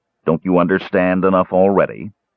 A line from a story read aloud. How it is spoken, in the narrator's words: Lorelon asked sternly